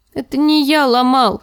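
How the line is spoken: Sobbing child babbling. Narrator (Russian): с рыданиями пролепетал мальчик

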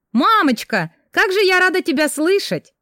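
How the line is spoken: Exclaiming. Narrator (Russian): воскликнула я

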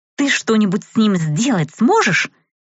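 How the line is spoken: Irritated question. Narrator (Russian): поинтересовалась Рэй раздраженным голосом

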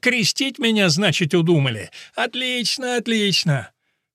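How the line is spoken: Laughing shouting. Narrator (Russian): А он все смеялся и кричал

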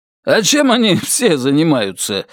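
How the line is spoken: Snorting. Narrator (Russian): хмыкнул Том

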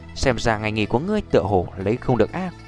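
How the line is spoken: Soft, smiling. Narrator (Vietnamese): Nhược Lâm đạo sư vẻ mặt tươi cười khẽ nói

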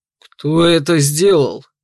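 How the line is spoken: Stern demanding question. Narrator (Russian): Одновременно с ней поинтересовался дракон и потребовал грозно

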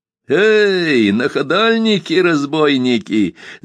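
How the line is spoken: Cheerful shout. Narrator (Russian): закричал весело

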